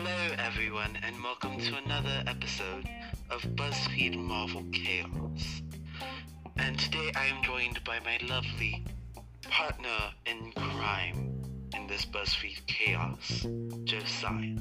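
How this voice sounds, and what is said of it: Put-on glossy British accent. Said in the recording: “a random British accent ... her British glossy accents”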